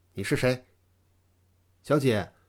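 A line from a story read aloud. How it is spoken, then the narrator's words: Cold question. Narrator (Chinese): 他冷冷地问道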